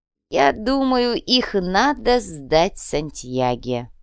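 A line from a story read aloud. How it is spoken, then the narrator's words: Creaky voice. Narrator (Russian): проскрипел К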